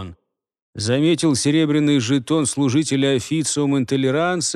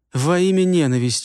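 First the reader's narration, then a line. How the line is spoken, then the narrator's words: Sobbing. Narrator (Russian): всхлипнул пастор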